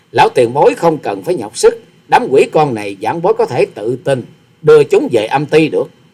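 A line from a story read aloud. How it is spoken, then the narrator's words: Laughing. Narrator (Vietnamese): Hòa sĩ Kiệt bật cười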